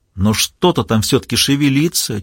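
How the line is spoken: Quiet. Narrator (Russian): тихо произнесла Маура

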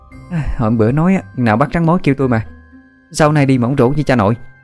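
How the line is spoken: Breathless, panting. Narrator (Vietnamese): Mén vừa thở hổn hển vừa nói

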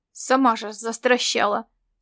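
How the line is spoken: Angry mocking mimicry. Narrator (Russian): сердито отозвался Ласло и передразнил

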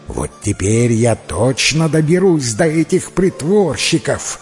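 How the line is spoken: Vicious hiss. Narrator (Russian): злобно прошипела мачеха

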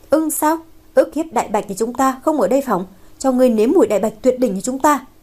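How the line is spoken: Laughing loudly. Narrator (Vietnamese): một người cười lớn nói

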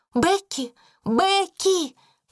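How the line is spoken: Shouting. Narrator (Russian): крикнула она

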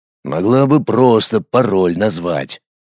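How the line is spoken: Grumble. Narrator (Russian): пробурчал

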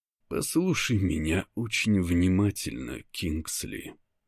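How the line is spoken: Quiet, clipped, deliberate. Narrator (Russian): Говорю тихо, отчеканивая каждое слово

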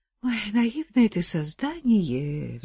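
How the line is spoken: Sighing mother. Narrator (Russian): вздохнула мать

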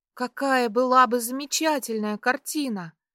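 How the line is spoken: Exclamation, girl. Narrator (Russian): воскликнула девушка

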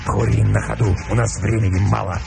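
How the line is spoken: Curt, hoarse. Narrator (Russian): ответил волк отрывисто и хрипло

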